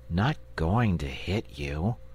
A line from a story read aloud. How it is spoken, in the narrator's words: said the boy wearily